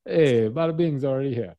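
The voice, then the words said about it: Poorly done put-on accent. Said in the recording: “that was my poor accent.”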